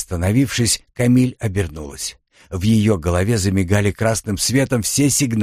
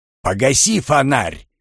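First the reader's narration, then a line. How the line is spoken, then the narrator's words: Barking command. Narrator (Russian): рявкнул голос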